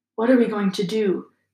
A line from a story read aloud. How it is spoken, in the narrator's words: said Ron quietly in Harry's ear